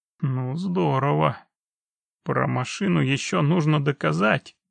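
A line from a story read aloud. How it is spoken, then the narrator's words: Annoyed, through gritted teeth. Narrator (Russian): досадливо процедил прокурор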